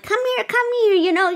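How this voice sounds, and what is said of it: Creepy witch-like Smeagol voice. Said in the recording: “I was doing my good impression. ... like a witch. ... it's got some Smeagol energy in it.”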